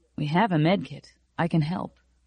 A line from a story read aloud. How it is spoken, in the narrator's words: Quietly, said